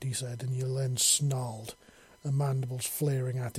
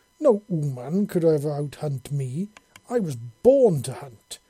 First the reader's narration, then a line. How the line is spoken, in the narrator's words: she snarled loudly